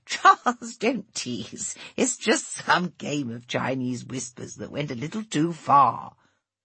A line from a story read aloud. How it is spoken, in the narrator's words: Catherine, laughing, said